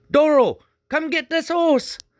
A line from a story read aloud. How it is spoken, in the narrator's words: hollered over his shoulder